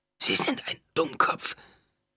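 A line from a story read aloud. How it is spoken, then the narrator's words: Croaking. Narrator (German): krächzte Aaliyah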